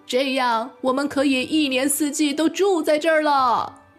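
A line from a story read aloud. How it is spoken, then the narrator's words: Shouting voices. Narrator (Chinese): 他们叫喊着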